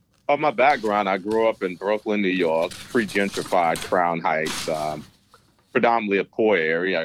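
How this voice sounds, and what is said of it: New York accent. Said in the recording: “I love the New York accent”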